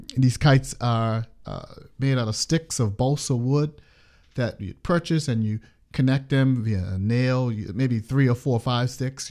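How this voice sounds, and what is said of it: Bermudian accent. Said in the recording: “If you haven't recognized from the accent, I'm from Bermuda”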